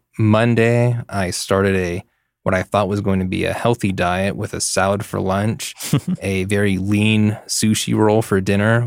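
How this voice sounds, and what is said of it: Croaky voice with vocal fry. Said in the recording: “you've got some vocal fry there ... the vocal fry reflected in the stories”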